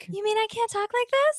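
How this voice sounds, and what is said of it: Put-on girly voice. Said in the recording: “I have a girl voice... So long as you don't talk like that while you're doing the pick.”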